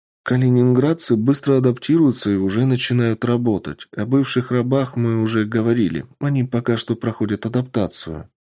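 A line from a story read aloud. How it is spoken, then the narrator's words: Girl answers, sighing. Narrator (Russian): ответила девушка и вздохнула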